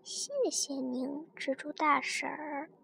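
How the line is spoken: Low, soft. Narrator (Chinese): 那只蜻蜓……低声说了句

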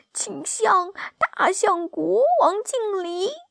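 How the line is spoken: Shouting. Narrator (Chinese): 小猪马上喊道

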